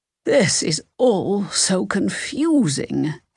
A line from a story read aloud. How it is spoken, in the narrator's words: Helen sighed